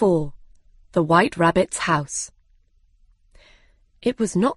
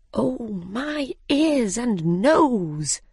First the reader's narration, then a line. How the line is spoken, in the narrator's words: said quietly